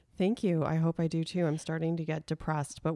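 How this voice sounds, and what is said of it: Congested, stuffy sick voice. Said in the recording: “I think you can tell by my voice that I am down and out with yet another sinus infection.”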